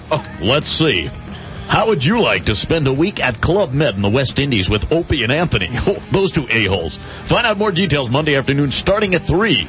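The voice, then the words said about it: Radio announcer voice. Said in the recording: “do it in your radio voice”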